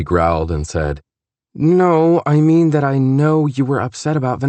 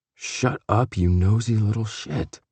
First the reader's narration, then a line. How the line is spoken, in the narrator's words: he muttered, giving into a smile